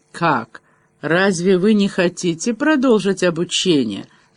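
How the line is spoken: Lazy drawl. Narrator (Russian): ленивым тоном протянул он

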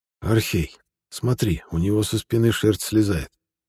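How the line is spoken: Whispered into ear. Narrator (Russian): наклонившись к уху командира, прошептал Бахей

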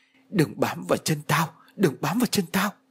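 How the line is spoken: Groaning, mumbling. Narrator (Vietnamese): Vừa rên hừ hừ vừa lẩm bẩm trong miệng

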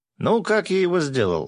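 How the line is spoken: Joyful yell. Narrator (Russian): радостно заорал Гензо

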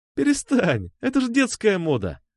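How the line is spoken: Loud laughter. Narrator (Russian): захохотала она

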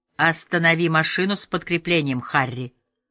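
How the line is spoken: Commanding tone. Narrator (Russian): приказным тоном сказал Воллер

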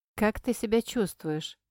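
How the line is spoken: Plain. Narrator (Russian): спросил у меня

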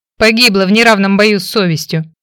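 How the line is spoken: Snorting. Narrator (Russian): фыркнул братец

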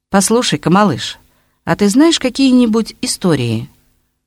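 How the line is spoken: Good-natured question. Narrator (Russian): он совсем добродушным тоном спрашивает

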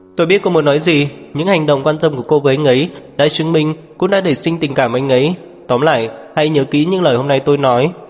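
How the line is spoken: Loud laughter. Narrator (Vietnamese): Phạm Khiết Phàm cười lớn

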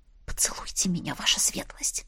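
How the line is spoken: Whispered demand. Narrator (Russian): Шепотом потребовала

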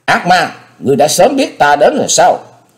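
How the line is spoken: Ferocious roar. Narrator (Vietnamese): Thế Hùng gầm lên như hổ đói

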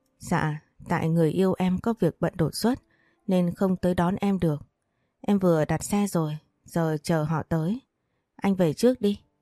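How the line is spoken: Smiling. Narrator (Vietnamese): Thu Trà mỉm cười nói

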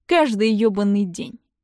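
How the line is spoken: Gloomy reply. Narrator (Russian): мрачно отвечает

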